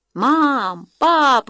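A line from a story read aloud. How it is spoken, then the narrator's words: Abrupt exclamation. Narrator (Russian): воскликнул он в обычной своей отрывистой манере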